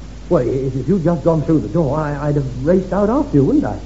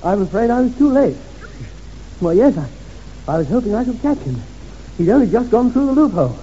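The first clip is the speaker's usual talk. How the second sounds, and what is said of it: Acted breathless, panting speech. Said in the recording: “I must remember to be out of breath. ... I'm a bit out of breath.”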